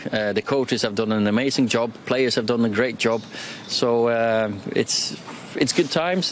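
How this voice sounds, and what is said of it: Norwegian accent with Mancunian touch. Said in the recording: “He's got like a fast show manager accent... That Norwegian with a touch of Oasis”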